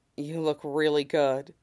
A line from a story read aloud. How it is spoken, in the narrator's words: Sid murmurs against his lips